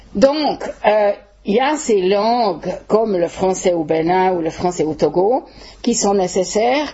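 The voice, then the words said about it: Swiss French accent. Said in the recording (French): “j'aie un accent suisse, évidemment”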